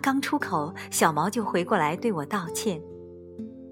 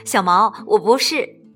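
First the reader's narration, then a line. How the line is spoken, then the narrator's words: Amused laugh. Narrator (Chinese): 我失笑，说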